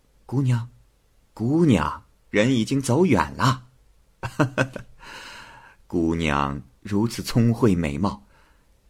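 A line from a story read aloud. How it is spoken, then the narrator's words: Joking, teasing. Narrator (Chinese): 王氏看出了胭脂的心思，便开玩笑似的说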